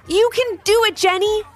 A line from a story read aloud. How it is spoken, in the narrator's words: exclaimed Marley